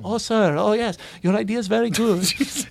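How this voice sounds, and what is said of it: Put-on Indian accent. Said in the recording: “that was an impression of an American Indian man”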